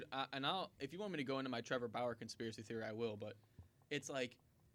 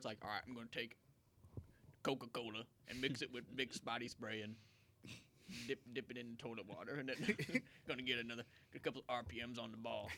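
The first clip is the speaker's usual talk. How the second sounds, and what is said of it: Imitates another person's voice. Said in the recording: “that was my impression of Bumgarner.”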